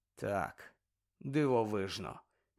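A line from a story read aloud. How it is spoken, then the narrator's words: Sighing. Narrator (Ukrainian): зітхнув Гаррі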